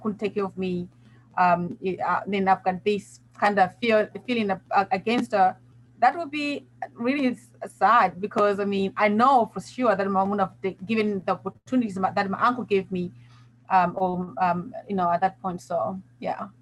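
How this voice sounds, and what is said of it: British-sounding accent. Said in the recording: “I love a British accent, which is why you have the cool ... you couldn't end up having an amazing accent”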